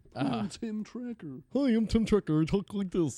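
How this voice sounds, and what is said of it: Imitates another person's voice. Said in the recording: “That's a good fucking impression.”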